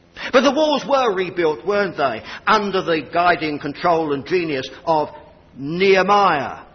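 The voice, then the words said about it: English accent. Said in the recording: “please excuse the Sassanac accent.”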